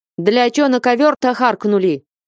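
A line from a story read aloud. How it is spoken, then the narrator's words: Annoyed shout. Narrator (Russian): крикнул он с досадой Алексею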